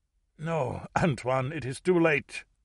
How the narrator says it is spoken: Mouchestine choked

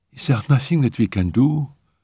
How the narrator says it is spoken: she asked timidly

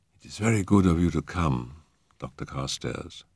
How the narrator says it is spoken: she said in a low, musical voice

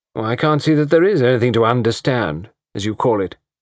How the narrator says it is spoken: she said coldly

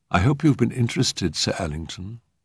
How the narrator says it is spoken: murmured Clare

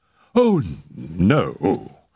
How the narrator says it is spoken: cried Mr

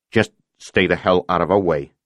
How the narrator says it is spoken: Nowetzki said irritably

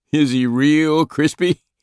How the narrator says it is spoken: Gunston laughed back

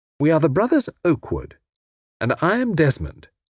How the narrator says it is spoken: he added firmly

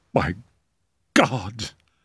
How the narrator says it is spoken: murmured

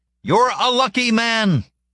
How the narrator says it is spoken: the fly said, shouting over the gale

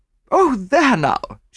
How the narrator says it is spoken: she exclaimed

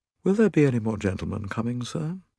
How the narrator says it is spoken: He inquired in a low, deferential voice

